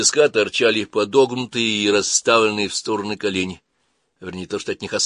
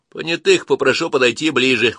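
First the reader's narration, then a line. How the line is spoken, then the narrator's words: Medic speaking, altered tone. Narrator (Russian): уже с уконным голосом произнес медик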